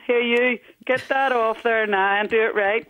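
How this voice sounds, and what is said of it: Put-on Belfast accent. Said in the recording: “I have her with a Belfast accent.”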